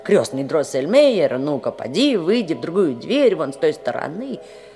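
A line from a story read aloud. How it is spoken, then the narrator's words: Impatient exclamation. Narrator (Russian): воскликнул нетерпеливо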